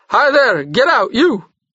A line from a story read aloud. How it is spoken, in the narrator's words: the driver shouted